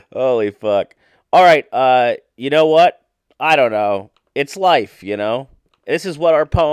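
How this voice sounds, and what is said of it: Usual voice. Nothing is said of it.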